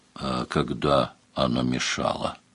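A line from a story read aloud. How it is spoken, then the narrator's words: Snort. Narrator (Russian): хмыкнул Сварог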